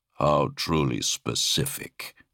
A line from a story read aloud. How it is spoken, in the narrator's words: Sirion chuckled